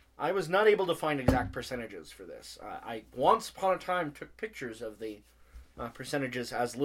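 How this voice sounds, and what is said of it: Usual voice. Nothing is said of it.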